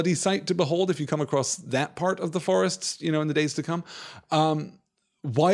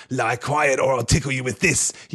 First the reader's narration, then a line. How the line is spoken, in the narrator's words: he hissed